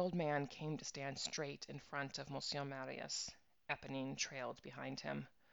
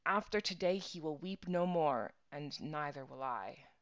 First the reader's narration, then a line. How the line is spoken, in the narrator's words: she said to herself, fiercely